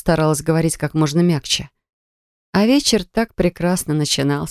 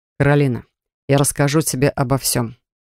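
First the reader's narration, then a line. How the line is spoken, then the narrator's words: Cold reply. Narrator (Russian): холодно ответил Грегхан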